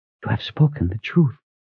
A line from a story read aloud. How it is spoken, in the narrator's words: she whispered